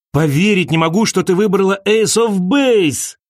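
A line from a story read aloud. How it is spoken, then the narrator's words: Shouted. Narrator (Russian): крикнул он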